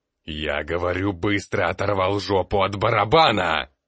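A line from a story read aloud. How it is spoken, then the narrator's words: Furious roar, woman. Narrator (Russian): Разъяренным медведем-шатуном взревела женщина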